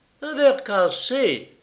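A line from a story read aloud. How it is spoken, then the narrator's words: Exclaiming. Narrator (French): s'écria Lord Évreux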